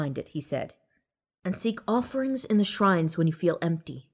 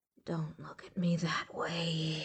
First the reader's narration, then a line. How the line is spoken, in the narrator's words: she muttered